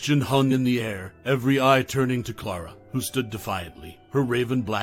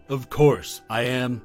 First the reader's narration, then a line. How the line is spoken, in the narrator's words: she declared, her voice firm